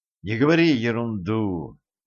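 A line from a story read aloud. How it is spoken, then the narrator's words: Tired request. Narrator (Russian): устало попросил Вильям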